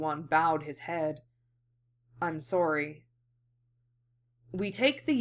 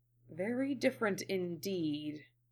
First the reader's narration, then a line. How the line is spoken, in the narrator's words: the Jedi murmured